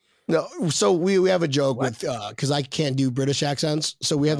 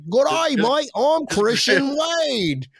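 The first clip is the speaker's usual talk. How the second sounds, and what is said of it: Put-on Australian accent. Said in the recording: “I can't do a Great Britain accent. So I just do an Australian accent.”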